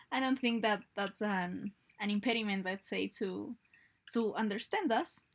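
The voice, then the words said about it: Strange non-native English accent. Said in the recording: “maybe it's funny listening us on our strange accent ... accent in English”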